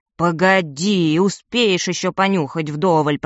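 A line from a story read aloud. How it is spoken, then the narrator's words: Grumble. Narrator (Russian): проворчала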